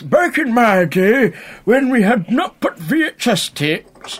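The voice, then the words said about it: Put-on old man voice. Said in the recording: “Was that convincing enough old man accent?”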